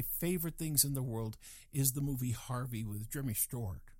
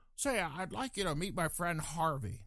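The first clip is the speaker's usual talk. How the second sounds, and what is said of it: Imitates another person's voice. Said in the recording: “worst Jimmy Stewart imitation I think done on the planet”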